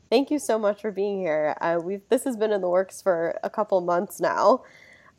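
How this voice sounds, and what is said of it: Slightly hoarse voice. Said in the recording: “excuse my voice. I am getting over a cold slash allergy attack, so I'm a little hoarse”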